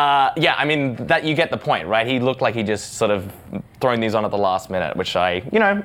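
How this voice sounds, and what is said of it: Usual voice. Nothing is said of it.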